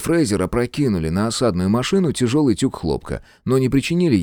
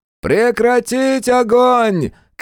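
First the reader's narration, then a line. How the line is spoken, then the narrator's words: Shout, then laughing. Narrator (Russian): крикнул Свинг и рассмеялся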